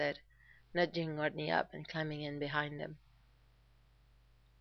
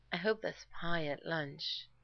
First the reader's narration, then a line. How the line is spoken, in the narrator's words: Rodney said dreamily